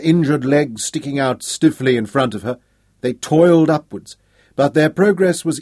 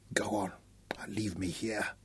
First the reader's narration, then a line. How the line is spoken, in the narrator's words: whispered hoarsely